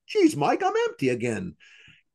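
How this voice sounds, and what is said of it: Comic voice for a talking wallet. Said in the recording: “if I do an impersonation of my wallet ... it's a safe impersonation”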